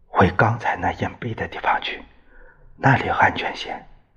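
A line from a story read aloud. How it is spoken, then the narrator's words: Whispering. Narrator (Chinese): 他悄声说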